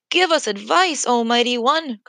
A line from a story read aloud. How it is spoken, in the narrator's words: cried the people